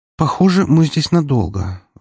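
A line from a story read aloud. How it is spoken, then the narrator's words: Drowsy sigh. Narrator (Russian): вздохнула Валькирия, вынырнув из дремоты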